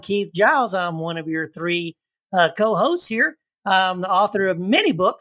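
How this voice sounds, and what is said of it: Slight Texas accent. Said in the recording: “I had a little bit of a Texas accent ... I guess I got to fight my Texas accent”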